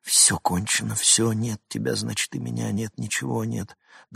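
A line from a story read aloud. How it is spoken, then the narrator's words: Muttered. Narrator (Russian): Забормотал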